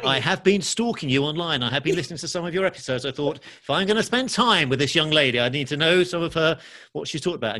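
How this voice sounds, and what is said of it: English accent. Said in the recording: “this guy with this English accent.”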